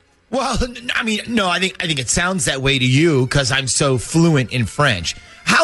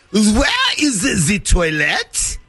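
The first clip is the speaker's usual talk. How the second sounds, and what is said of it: English spoken in fake French accent. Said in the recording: “You said English words in a French accent.”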